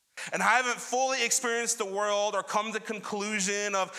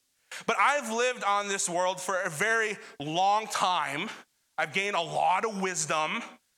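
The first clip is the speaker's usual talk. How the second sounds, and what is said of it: Sarcastic tone. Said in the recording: “Please hear the sarcasm in my voice.”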